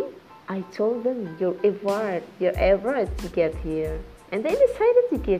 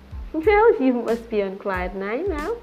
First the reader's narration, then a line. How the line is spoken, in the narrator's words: Jane answered merrily